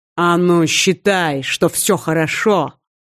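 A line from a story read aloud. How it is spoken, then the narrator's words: Growled. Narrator (Russian): рыкнул Вархар в лицо коллеги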